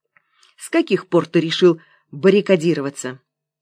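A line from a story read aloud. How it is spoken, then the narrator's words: Angry question. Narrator (Russian): сердито поинтересовалась она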